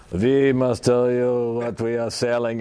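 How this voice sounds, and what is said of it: Mock German accent. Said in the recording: “in a German accent”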